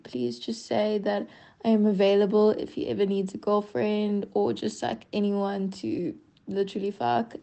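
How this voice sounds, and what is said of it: Woman speaking with an accent. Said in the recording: “I love that accent so much.”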